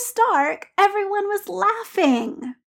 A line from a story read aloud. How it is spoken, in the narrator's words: Peter said, aware that he was whining and unable to stop it